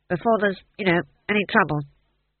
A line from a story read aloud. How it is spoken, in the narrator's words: said the dwarf firmly